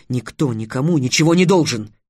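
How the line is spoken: Sharp angry bark. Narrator (Russian): рявкнул Трикс

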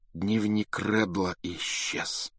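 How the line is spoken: Dejected. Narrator (Russian): сказал он упавшим голосом

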